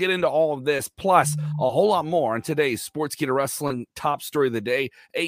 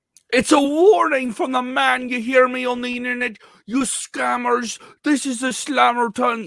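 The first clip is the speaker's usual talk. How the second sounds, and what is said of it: Poor imitation of another person's voice. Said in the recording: “bad Becky Lynch impression”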